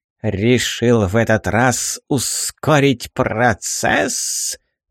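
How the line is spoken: Hissing old woman. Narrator (Russian): зашипела угорающая старуха

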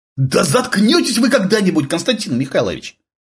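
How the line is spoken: Angry young man shouting. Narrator (Russian): Обозленно выкрикнул молодой человек по имени Адам

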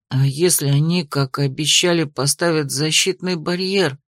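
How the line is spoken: Mutter. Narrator (Russian): пробормотал кто-то

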